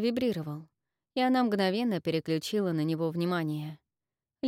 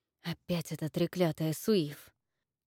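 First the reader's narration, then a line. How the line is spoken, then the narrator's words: Mutter. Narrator (Russian): пробормотала Инна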